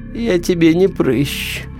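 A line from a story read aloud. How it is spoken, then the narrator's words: Sleepy, hulking creature. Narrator (Russian): сонно сказала грязная гора мяса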